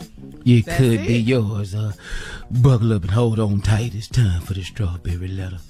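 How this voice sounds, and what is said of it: Sexy imitation of another person's voice. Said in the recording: “that your sexy Tommy imitation? ... Sound just like”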